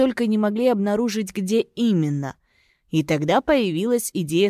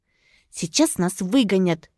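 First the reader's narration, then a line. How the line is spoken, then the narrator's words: Whisper. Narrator (Russian): прошептала Уна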